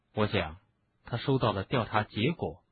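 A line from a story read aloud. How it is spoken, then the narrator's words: Whispering. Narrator (Chinese): 哈利 小声说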